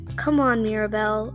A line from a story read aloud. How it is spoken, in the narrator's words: Alira grumbled